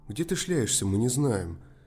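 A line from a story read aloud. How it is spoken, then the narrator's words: Cheerful. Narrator (Russian): весело сказала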